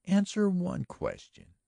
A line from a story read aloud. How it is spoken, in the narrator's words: she urged earnestly